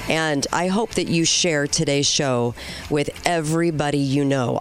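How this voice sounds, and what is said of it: Voice sounds bad today. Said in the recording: “my voice is terrible today”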